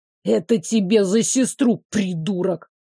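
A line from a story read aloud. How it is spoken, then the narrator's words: Spiteful hiss. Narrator (Russian): какой-то подлец … прошипел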